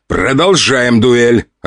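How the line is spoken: Growl. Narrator (Russian): рыкнул я, ибо ее собирались отменить

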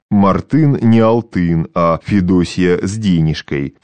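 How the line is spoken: Deep joking voice. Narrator (Russian): пробасил в виде остроты один из выборных

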